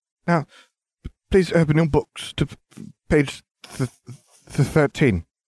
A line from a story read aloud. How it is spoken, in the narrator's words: Quirrell stuttered